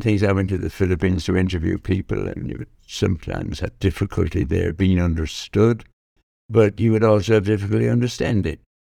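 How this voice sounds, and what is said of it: Irish accent. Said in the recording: “the Irish accent ... I'm very proud to be Irish”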